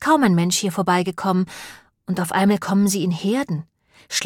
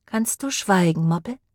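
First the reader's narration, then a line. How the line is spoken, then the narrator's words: Plain question. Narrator (German): fragte sie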